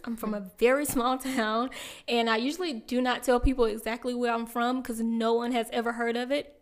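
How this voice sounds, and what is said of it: Southern US accent. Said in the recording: “I am from South Carolina. If you cannot hear it in my voice”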